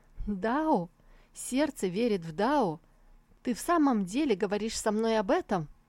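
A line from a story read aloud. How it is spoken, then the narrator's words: Laughing and crying at once. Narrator (Russian): смеясь и плача одновременно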